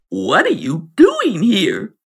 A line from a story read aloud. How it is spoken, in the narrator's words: a croaky voice ask